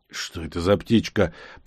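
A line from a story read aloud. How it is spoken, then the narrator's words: Muttering to himself. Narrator (Russian): пробормотал себе под нос, никому конкретно не обращаясь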